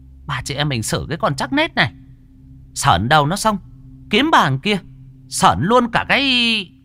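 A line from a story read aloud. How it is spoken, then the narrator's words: Hissing woman. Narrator (Vietnamese): Vợ của Hai Đông nói như rít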